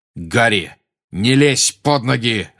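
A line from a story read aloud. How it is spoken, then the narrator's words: Growled. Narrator (Russian): рычал Сириус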